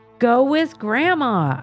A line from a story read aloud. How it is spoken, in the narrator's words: I said loudly